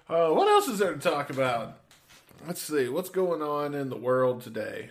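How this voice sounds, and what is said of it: Usual voice. Nothing is said of it.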